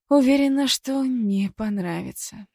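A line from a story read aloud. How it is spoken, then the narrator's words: Sighing. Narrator (Russian): вздохнула я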